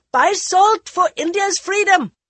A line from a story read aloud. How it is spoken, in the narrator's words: As steel wheels clashed against sparking rails, they ... shouting